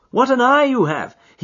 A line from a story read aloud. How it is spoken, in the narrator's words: cried with a sigh of relief